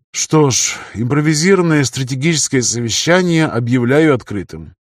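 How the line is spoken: Strained breathy voice. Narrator (Russian): с трудом выдохнул Илеон

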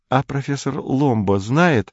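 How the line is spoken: Timid girl's question. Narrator (Russian): робко спросила худенькая девица

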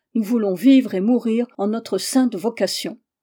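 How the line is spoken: Loud collective cry. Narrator (French): Presque toutes s'écrièrent à pleine voix

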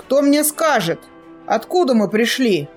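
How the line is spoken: Menacing question. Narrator (Russian): он грозно спросил

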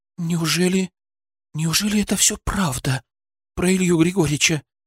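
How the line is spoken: Whisper. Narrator (Russian): прошептала Яна

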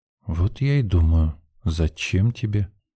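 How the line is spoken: Thoughtful drawl. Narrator (Russian): Задумчиво протянула Евдокия

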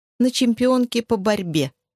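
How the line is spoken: Snide interjection. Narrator (Russian): ехидно вставила Энни

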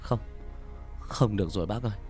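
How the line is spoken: Breathless panting young man. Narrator (Vietnamese): Người thanh niên thở hổn hển

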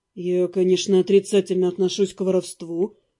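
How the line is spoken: Calm. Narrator (Russian): спокойно отозвался Дамиан

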